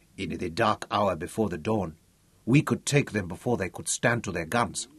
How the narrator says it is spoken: murmured Butso

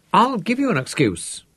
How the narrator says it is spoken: she said excitedly

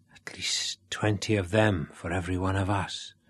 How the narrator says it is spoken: whispered Sean, with a tiny flicker of pride

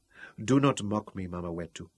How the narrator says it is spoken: murmured pitifully

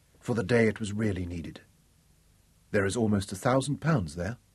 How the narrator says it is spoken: whispered

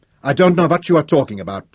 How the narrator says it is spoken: blurted

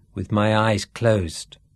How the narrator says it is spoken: said Sean

